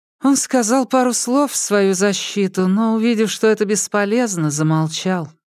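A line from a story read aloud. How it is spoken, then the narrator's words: Sigh. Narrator (Russian): вздохнула учительница Джу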